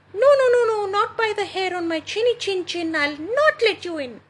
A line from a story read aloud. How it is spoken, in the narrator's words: squeaked the second little pig